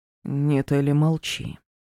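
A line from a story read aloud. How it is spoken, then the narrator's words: Hoarse reply. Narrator (Russian): хрипло ответил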